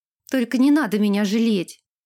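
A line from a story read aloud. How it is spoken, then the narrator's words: Shouted. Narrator (Russian): выкрикнула Ирга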